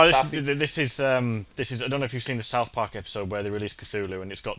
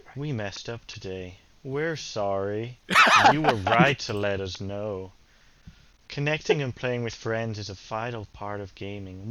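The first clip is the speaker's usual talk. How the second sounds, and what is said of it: Imitates robotic text-to-speech voice. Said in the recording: “In your best sort of in Microsoft accent. ... In your Microsoft voice. ... Well, Microsoft Sam.”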